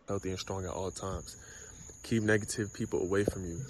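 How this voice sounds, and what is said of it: Whispering. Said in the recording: “Why is he ... whispering?”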